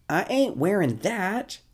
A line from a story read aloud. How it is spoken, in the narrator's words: he exclaims